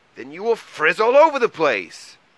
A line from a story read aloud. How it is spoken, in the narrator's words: cried Mole angrily